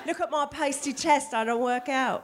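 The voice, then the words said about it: Put-on British accent. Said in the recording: “That's a British accent.”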